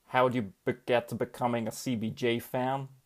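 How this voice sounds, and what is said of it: Poor put-on American accent. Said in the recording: “That was horrific. I mean, my accents aren't wonderful... your British impression may have been better than my American there”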